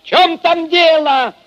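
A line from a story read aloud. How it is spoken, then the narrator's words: Shouted. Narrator (Russian): Крикнул он в темноту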